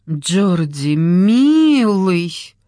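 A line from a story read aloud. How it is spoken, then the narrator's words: Drawled. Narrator (Russian): протянула она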